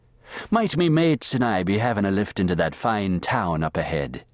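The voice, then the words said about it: Booming Irish brogue. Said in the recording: “spouted in a booming brogue”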